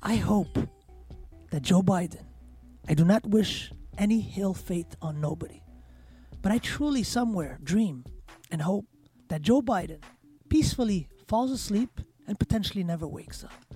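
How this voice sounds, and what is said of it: Lowered, sultry sexy voice. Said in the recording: “lower my voice, put my sexy voice on”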